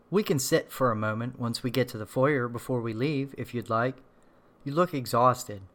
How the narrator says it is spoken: the voice said

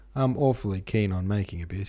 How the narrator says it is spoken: he laughed

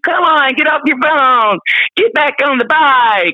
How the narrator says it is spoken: the instructor yelling at you

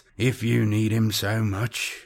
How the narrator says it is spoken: Balbrev said grimly

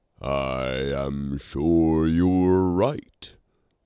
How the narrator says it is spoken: Romular drawled uncertainly, for this had not occurred to him at all

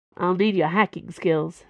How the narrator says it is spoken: said Dana

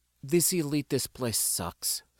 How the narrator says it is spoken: Syndrome muttered

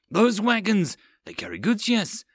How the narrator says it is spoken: Akron excitedly asked Blake

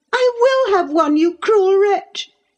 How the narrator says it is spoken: she screamed

